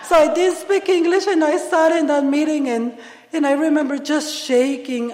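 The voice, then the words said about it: Non-native English accent. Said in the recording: “If you don't like my accent or the way I speak”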